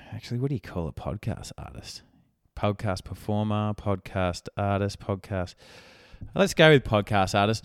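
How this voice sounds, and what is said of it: Croaky voice. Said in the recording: “re-injures my throat ... my voice is a bit croaky and it's been this way for probably 6 weeks”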